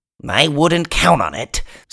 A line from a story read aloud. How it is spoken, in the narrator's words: Sniff grumbled